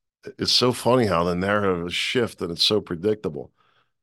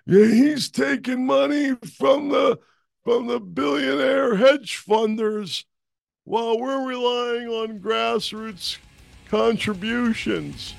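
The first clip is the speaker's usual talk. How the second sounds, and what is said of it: Imitates another person's voice. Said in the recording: “my Biden impression”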